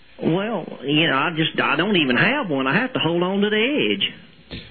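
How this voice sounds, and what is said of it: Exaggerated Southern US accent. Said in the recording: “phony accents... I believe you're calling from South Carolina, but drop the accent.”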